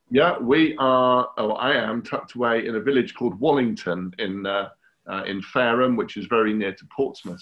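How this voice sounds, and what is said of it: English accent. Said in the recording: “I can tell from your accent, you're across a different pond. So you're obviously in England somewhere.”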